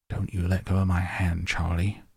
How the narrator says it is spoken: whispered Grandpa Joe

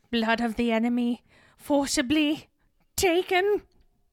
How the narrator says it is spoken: Wormtail shakily says

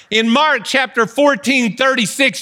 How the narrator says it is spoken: Jesus cried out

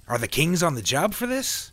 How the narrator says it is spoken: He asked excitedly

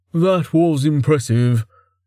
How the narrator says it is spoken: Merrick sighed

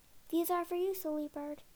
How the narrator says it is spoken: she called out

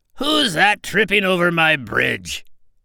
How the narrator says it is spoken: roared the troll

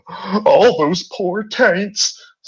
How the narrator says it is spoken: sobbed Horsecock

